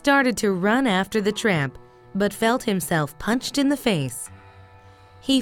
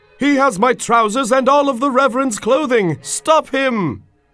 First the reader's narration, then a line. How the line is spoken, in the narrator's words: He shouted out